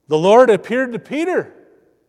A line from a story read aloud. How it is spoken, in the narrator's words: who excitedly tell them